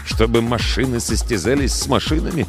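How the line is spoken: Mutter. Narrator (Russian): пробормотал он

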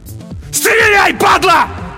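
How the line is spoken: Desperate yell. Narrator (Russian): заорал на смерть Олесь

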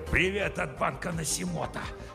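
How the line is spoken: Hissing. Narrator (Russian): Прошипел он

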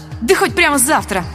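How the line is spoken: Snapping retort. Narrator (Russian): огрызнулась я

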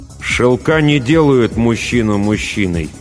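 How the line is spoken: Through gritted teeth. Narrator (Russian): добавил сквозь зубы

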